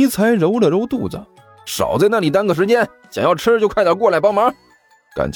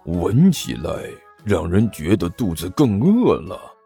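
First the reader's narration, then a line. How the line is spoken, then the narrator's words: Low muttering. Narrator (Chinese): 刘阿八低声嘀咕道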